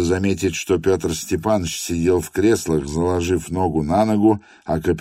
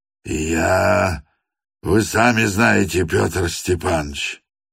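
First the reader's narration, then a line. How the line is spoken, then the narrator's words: Mutter, breaking off. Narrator (Russian): пробормотал капитан, осекся и замолчал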